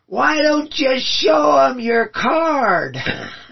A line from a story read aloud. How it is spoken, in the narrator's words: he yells out to the guy